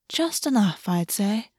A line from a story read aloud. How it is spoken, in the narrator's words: August murmured